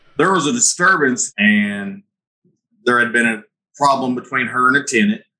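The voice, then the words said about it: Southern Missouri accent. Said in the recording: “as you can tell from my accent, we're in Southern Missouri”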